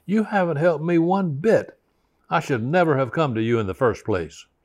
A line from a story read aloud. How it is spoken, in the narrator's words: became viciously angry, very hostile, and she shouted